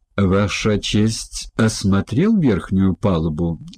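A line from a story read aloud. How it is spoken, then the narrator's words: Plain. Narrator (Russian): спросил Чао Тай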